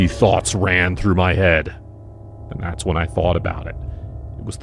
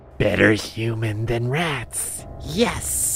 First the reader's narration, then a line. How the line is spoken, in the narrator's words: he slowly whispered